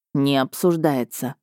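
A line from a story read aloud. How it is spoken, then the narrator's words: Stern reply. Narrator (Russian): ответил строго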